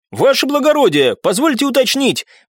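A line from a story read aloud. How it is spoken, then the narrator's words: Brisk, cheerful. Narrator (Russian): бодро сказал он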